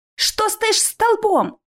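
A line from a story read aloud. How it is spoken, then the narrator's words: Shout. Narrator (Russian): крикнула Алиса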